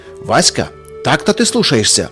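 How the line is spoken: Father's sharp shout. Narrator (Russian): прикрикнул вслед ему отец

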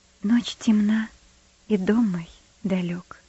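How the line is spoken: Soft singing. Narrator (Russian): негромко запела Бетси

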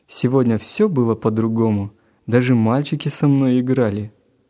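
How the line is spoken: Cheerful remark. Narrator (Russian): Гена весело заметил

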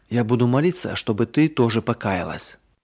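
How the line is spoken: Whisper in ear. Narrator (Russian): Марина прошептала сестренке на ухо

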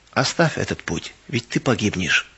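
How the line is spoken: Quiet persuasion. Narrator (Russian): Дух Господень тихо подходил ко мне и убеждал

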